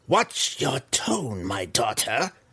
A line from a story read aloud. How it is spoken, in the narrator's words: Malice growled as an angry reminder